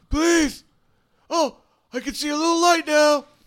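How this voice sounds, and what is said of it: Dumb-sounding character voice. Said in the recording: “his dumb voice”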